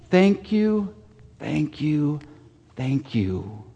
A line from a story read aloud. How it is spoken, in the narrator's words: With joy in her heart, Grandma repeated softly